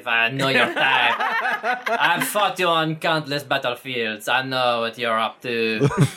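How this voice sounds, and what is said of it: Put-on sexy character accent. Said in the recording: “This accent is it's very offensive ... the other sexy voice”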